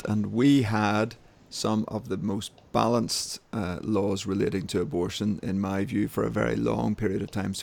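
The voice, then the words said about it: Northern Irish accent. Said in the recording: “I'm based in Northern Ireland, as we probably know from my funny accent”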